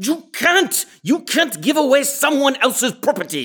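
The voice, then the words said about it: Angry shouting. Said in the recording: “why are you yelling? ... in this tone of voice.”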